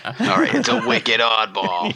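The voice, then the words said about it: Put-on regional accent, dropped R's. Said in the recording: “There's not enough R's. ... You work on your accent there, bud.”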